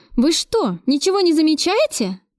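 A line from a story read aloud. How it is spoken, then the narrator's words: Exclaiming. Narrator (Russian): воскликнула я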